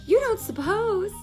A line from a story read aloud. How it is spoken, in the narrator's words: cried Daisy